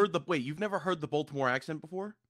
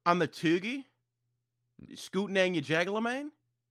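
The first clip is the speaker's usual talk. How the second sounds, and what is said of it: Put-on Baltimore accent. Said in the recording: “the Baltimore accent”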